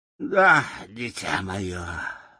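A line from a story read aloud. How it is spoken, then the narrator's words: Sighing. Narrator (Russian): вздохнул Гудвин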